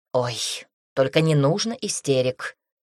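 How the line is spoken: Dismissive snort. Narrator (Russian): фыркнула Эллен

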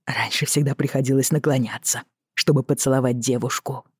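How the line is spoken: Breathless whisper. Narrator (Russian): прошептал Роджер в надежде восстановить дыхание

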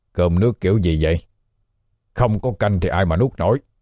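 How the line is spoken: Annoyed shout. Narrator (Vietnamese): Lão Hoành thấy thiếu tô canh mới quát lên

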